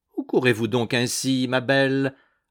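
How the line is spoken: Mocking call. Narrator (French): lançait-il d'un ton railleur

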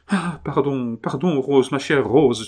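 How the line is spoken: Exclaimed. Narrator (French): s'écria-t-il

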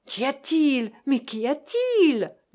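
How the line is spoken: Shouted questions. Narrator (French): lui criait-on

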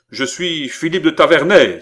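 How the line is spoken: Young man exclaiming. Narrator (French): s'écria le jeune homme

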